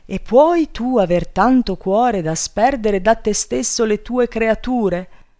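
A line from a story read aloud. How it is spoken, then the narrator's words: Wife shouting. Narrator (Italian): gridò la moglie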